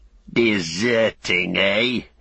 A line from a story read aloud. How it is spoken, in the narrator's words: he snarled